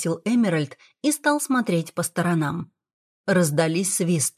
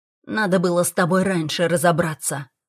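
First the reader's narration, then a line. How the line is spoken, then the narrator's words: Grumbling. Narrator (Russian): ворчал Смит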